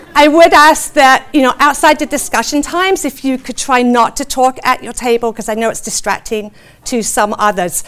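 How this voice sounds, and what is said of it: Speaks with a noticeable foreign accent. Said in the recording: “You can just kind of listen to my accent, if you feel like that, and just kind of let it gently lull you to sleep.”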